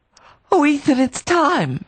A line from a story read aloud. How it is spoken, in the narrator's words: she cried